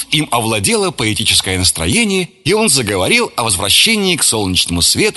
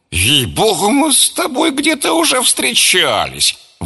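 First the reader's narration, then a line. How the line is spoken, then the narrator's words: Exclaiming. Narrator (Russian): воскликнул он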